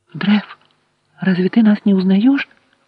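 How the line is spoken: Frightened whisper. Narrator (Russian): испуганным шепотом произнесла девушка

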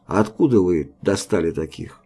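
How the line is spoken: Plain. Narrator (Russian): спросил Мотовилов

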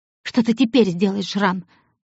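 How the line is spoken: Angry question. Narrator (Russian): зло спросила Оникс

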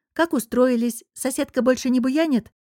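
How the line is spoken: Timid question. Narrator (Russian): уточнила я робко

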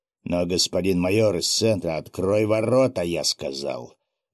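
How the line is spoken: Menacing growl. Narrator (Russian): грозно рыкнул Федор Филимонович Мышкин

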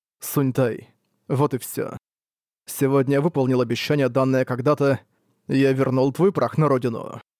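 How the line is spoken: Sighing, to himself. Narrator (Russian): слегка вздохнул и произнес сам себе

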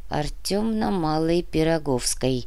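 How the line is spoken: Old woman muttering. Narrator (Russian): пробормотала старуха

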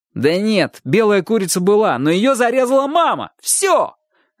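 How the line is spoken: Shouted. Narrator (Russian): закричал Чик

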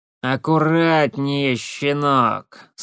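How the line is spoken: Grumpy creaky voice. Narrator (Russian): сварливо проскрипел голос

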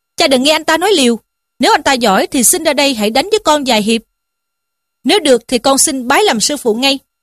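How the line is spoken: Angry. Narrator (Vietnamese): lại ra dáng tức giận mà rằng

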